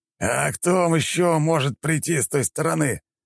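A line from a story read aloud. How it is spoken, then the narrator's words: Growled. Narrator (Russian): рыкнул сосед по укрытию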